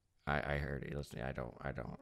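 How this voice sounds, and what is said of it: Imitates another person's voice. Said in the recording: “it's a good impression”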